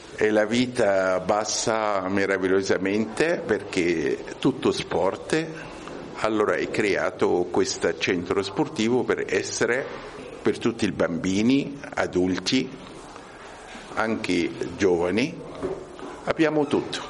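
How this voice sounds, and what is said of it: Non-native Italian accent. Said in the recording (Italian): “avete sentito dall'accento che non è italiano”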